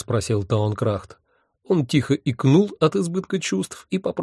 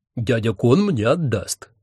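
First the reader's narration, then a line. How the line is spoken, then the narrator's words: Gloomy mutter. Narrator (Russian): мрачно буркнула одна голова их папеньки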